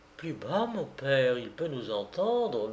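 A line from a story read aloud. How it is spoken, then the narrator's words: Young girl murmuring. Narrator (French): murmura la jeune fille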